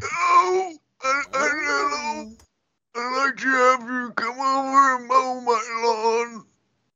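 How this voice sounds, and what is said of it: Old grandma voice. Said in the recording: “Do any of you have good grandma voices? ... Oh, do I have a good grandma voice?”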